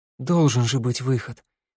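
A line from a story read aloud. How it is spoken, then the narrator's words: Breathed out. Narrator (Russian): выдохнула Санда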